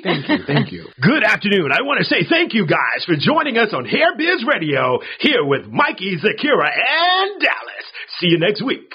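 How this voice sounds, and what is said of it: Radio announcer voice. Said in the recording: “I wanted to do my radio voice”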